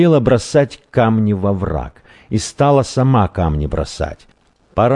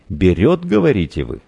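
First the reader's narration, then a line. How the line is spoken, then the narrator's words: Laughing young man. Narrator (Russian): засмеялся юноша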